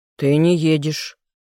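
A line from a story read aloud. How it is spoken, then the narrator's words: Harsh barking. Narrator (Russian): резче, чем следовало бы, рявкнул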